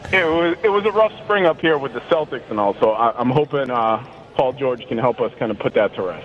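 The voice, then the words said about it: Boston accent. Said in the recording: “it does sound like you have a Boston accent”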